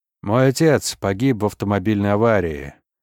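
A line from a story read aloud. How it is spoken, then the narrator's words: Dull, sad voice. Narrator (Russian): тусклым голосом произношу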